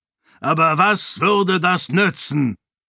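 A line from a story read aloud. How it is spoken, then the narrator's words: Shouting over loud crowd. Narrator (German): schrie, dem es schwer fiel, die lautstarke Menge zu übertönen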